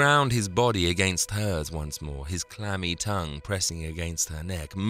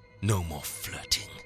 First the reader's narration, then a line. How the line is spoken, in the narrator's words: he hissed